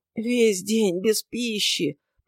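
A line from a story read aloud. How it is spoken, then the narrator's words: Moaning again. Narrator (Russian): простонал опять голос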